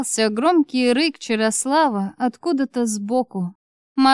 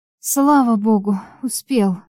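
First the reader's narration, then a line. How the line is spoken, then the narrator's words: Relieved exhale. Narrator (Russian): выдохнула с облегчением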